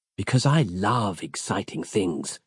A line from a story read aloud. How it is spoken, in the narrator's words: she added, murmuring the words breathily through full cherry-red lipsticked lips